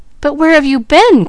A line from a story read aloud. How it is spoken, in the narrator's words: cried the boy